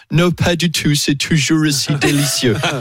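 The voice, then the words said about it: Mock English accent in French. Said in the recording (French): “il avait l'accent anglais”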